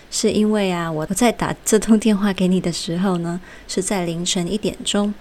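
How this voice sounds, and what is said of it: Quiet, soft-spoken voice. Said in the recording (Chinese): “那为什么我讲话好像有点小声呢？”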